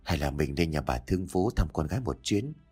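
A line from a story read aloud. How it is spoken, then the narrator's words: Gentle question. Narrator (Vietnamese): Ông Nhã nhẹ nhàng hỏi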